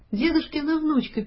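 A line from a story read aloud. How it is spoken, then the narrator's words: Squeaky child's voice. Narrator (Russian): пискнул детский голосок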